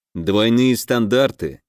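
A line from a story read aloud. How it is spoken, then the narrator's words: Displeased grumble. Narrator (Russian): недовольно проворчал Герман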